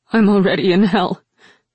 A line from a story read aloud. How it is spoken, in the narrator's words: Rin said hoarsely